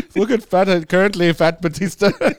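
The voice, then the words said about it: Mocking put-on Indian accent. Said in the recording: “those Indians in space ... that was a mean accent ... Mean accent”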